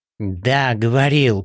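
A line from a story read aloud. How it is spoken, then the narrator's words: Hiss. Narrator (Russian): прошипел Говоров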